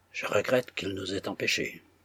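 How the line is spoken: Gruff. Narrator (French): dit Bazarov d'un ton bourru

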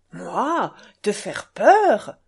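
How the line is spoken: Exclaiming. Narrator (French): s'écria Mitya

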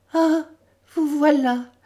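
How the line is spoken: Stammered. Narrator (French): balbutia-t-elle

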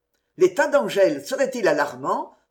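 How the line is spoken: Quick, eager question. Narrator (French): demanda vivement le garde général

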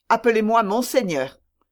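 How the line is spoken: Curt reply. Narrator (French): répondit sèchement Aramis

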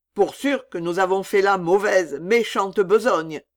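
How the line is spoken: Plain. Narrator (French): dit Sambo

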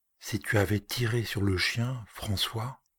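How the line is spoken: Murmur. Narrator (French): il murmura

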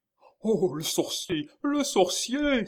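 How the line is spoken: Exclaiming. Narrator (French): s'écria le baron

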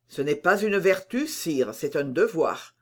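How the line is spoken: Cold reply. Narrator (French): répondit froidement Colbert

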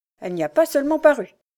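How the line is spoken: Dry, crisp beggar woman. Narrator (French): articula sèchement la mendiante

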